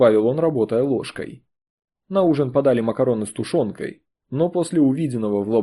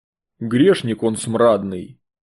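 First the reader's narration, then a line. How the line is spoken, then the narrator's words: Booming bass voice. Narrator (Russian): гулко пробасил Растрига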